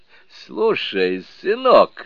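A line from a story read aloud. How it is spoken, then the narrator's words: Laughing. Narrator (Russian): смеясь сказал Сунь-Окун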